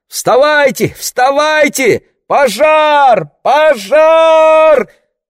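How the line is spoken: Screaming at full voice. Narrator (Russian): вопила во все горло Марго

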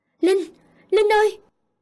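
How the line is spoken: Loud scream. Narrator (Vietnamese): nghe rõ tiếng hét của Tân rất lớn

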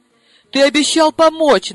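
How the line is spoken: Reminding, then bursting into tears. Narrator (Russian): напомнила я и разрыдалась

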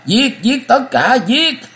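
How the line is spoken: Sudden shriek. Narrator (Vietnamese): Từ Lập Thiện lúc này bất ngờ kêu rú lên

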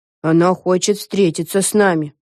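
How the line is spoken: Gloomy deep voice. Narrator (Russian): мрачно пробасила Лиззи

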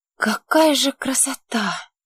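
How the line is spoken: Shocked whisper. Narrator (Russian): шокированно прошептала Лите

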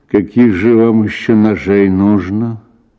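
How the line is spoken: Irritated question. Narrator (Russian): спросил раздраженно фельдшер

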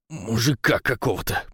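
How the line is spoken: Angry growl. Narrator (Russian): прорычало зло

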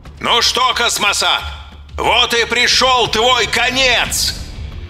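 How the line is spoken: Shout through megaphone. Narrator (Russian): Закричал в мегафон

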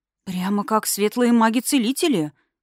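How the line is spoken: Admiring breathless. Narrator (Russian): восхищенно выдохнула Рами

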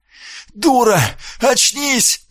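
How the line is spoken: Desperate hoarse wheeze. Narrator (Russian): прохрипел он в отчаянии

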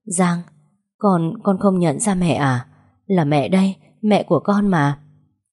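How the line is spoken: Trembling call. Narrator (Vietnamese): Mẹ thấy tôi không đáp mới run rẩy gọi

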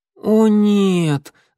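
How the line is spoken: Groaning. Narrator (Russian): застонал Огонек

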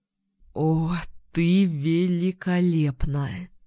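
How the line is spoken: Moaned. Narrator (Russian): простонал Фин, прижимаясь губами к коже Тамсин

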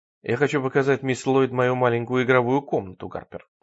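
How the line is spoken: Plain. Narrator (Russian): сказал сэр Генри

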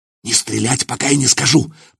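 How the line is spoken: Hissed. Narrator (Russian): прошипел Илья

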